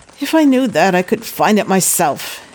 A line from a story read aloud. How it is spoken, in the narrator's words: he snapped back, aggravated by his own helplessness